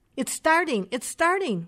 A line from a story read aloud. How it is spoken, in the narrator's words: shouted in unison